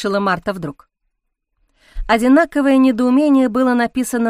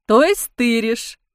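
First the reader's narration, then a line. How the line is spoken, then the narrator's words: Scornful snort. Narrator (Russian): фыркнул полицейский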